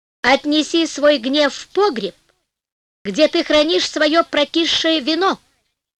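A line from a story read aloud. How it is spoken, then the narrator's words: Calm. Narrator (Russian): сказал он спокойно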